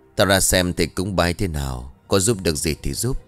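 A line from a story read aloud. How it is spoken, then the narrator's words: Strange, unfamiliar voice. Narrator (Vietnamese): Người kia liền đáp bằng giọng nghe rất xa lạ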